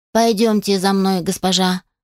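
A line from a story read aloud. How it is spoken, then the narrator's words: Plain. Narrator (Russian): сказала зомби-горничная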